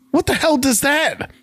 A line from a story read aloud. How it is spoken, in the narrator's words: Walter shouts